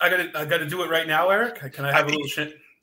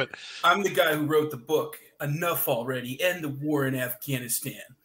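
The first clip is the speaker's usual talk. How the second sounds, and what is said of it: Imitates another person's voice. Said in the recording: “premiering a really big impersonation, and that's of Scott Horton from antiwar.com.”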